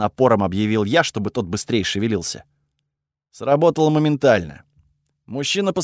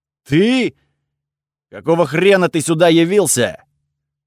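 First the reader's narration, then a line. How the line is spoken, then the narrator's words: Very loud echoing yell. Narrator (Russian): Он заорал так громко, что эхо прогудело под стальным потолком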